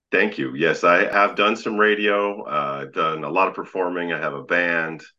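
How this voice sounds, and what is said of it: Very deep radio voice. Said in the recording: “so deep. Has anybody told you you have a voice for radio?”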